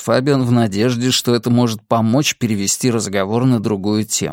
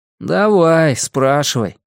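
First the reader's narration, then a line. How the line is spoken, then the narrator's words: Muttering. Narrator (Russian): пробормотал Теодор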